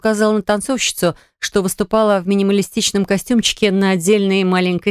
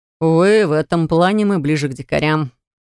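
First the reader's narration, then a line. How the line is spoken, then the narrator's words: Snort. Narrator (Russian): хмыкнул Яр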